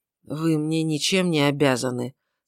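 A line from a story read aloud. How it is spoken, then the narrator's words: Hoarse monotone. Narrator (Russian): сказала Ульрика тем самым хриплым, монотонным голосом, которым она в последнее время стала говорить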